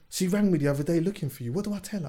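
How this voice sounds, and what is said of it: Put-on Essex accent. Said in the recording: “Why do you put on an Essex anyway? Accent”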